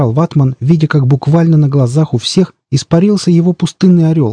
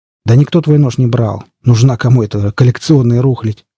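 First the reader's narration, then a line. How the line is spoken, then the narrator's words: Gruff mutter. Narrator (Russian): буркнул Крендель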